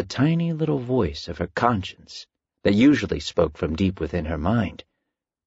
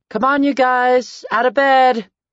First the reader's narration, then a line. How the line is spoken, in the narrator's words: Carmen shouted down the staircase